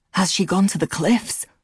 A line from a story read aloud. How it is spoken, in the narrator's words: His voice was hoarse